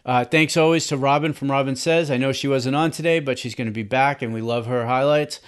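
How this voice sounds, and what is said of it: Boston accent. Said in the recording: “I'm from Boston ... my accent will throw off the pronunciations of names”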